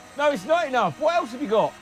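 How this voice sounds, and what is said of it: Shouting from the background. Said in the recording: “Who is that that's shouting out? ... you keep shouting out.”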